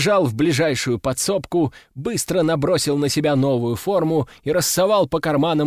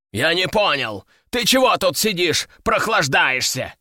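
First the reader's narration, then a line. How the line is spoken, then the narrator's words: Growling. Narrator (Russian): рыкнул он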